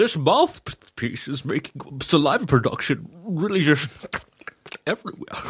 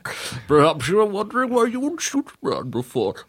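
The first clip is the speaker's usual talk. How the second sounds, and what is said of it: Wet, salivary Darth Bane voice. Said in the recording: “Your Bane sounds like there's a lot of saliva in his mouth... It's very damp.”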